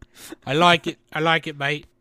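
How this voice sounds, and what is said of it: Put-on British accent. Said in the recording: “you'd adopt a British accent.”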